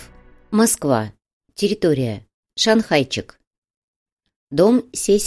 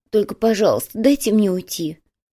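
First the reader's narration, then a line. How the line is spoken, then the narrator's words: Pleading tone. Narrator (Russian): умоляющим тоном произнес Ван по прозвищу Миска Риса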